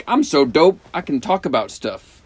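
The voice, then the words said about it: Imitates another person's voice. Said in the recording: “That is a Dave Chappelle impersonation.”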